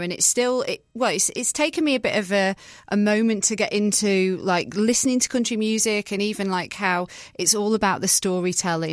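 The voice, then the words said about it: British accent. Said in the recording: “As you can hear in my voice, I'm from the UK.”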